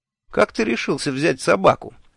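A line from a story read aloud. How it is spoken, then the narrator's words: Cheerful question. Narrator (Russian): весело спросил я Шурфа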